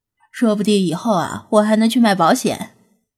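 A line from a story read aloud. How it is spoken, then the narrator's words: Relaxed, laughing. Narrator (Chinese): 张子安轻松地向弗拉基米尔笑道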